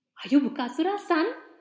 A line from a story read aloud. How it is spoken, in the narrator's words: He asked eagerly